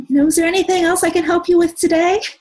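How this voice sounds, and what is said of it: Scripted customer service rep voice. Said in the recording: “I sounded like a customer service rep”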